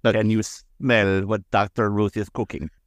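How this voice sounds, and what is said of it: Dr. Ruth accent impression. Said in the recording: “In her accent”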